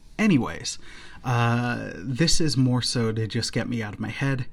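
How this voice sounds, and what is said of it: Sick, strained voice. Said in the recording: “whenever I get sick ... sorry about my voice”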